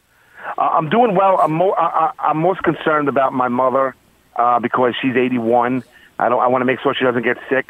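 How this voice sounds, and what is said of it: Queens New York accent. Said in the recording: “the Queens accent”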